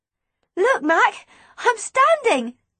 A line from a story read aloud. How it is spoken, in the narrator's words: I gasped